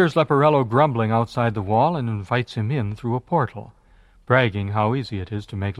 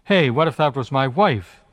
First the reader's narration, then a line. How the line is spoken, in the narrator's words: the servant asks